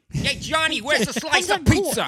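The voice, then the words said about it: Loud exaggerated New York accent. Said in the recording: “That's actually really good. That's very good. Right? That's quite a good New York accent. ... Just me screaming like a madman. ... New Jersey, I think you'll find. ... Because they're apparently more loud.”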